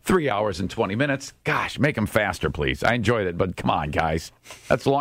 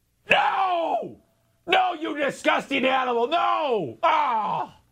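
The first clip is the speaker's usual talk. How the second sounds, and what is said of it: Shouting, yelling angrily. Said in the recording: “She's yelling.”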